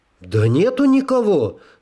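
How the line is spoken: Slightly offended repetition. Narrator (Russian): слегка обиженно повторил хозяин

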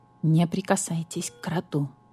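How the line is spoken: Whisper. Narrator (Russian): шепнул грач-врач

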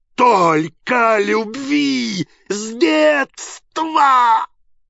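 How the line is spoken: Shouting. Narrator (Russian): Впервые за долгую свою жизнь он кричал

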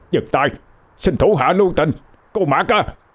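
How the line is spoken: Man's echoing shout. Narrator (Vietnamese): Ông hét lên vang vọng

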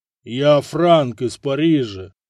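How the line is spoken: Offended booming, muffled by mask. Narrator (Russian): Обиженно прогудела фигура из-под железной маски

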